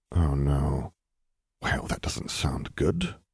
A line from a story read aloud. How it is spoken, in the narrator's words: he muttered under his breath